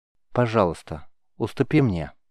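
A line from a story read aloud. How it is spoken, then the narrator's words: Soft coaxing. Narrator (Russian): мягко, словно уговаривая, предложил Рис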